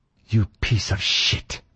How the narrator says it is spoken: she hissed at me

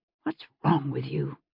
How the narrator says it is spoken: she muttered under her breath

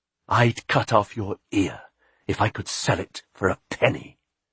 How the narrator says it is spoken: she hissed at him

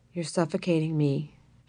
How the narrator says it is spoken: she whispered lovingly to Jesse as he lay sleeping

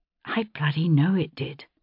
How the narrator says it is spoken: I said quietly

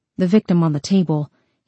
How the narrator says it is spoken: he mumbled

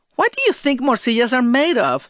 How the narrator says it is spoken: She asked with a laugh

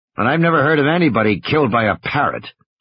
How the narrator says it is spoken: Gennaro grumbled

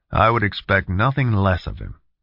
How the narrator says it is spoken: Tom said firmly

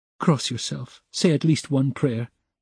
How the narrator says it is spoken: Sonya begged in a timid, broken voice

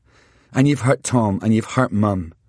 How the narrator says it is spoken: I said calmly

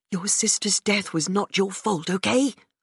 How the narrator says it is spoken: Her voice was fierce, almost like she was telling me off

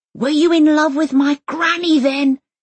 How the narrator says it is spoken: Elsa yells after him

